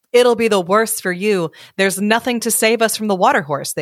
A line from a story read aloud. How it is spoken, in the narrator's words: they said